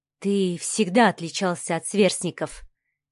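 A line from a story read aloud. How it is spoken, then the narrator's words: Quiet, thoughtful. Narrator (Russian): тихо и задумчиво произнесла Инга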